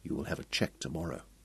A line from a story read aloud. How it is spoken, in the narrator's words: said Ronald Pye softly